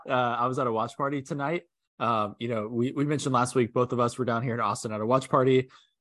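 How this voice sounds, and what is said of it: Slightly hoarse, strained voice. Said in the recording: “My voice is a little shot.”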